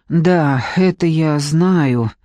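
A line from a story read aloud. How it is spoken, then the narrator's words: Sorrowful sigh. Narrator (Russian): Надежда горестно вздохнула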